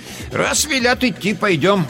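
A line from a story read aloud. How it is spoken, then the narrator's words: Loud, old woman. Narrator (Russian): громко сказала бабушка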